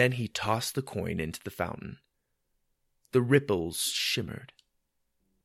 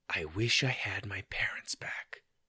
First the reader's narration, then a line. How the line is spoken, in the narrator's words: After a deep breath, he whispered